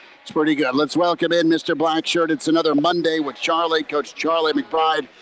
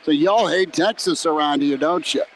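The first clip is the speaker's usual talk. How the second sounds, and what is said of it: Sweet southern twang. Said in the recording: “There was just this sweet southern twang”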